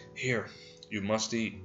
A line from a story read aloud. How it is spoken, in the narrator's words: whispering